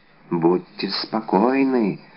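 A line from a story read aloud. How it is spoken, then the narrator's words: Whispered. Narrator (Russian): прошептала миледи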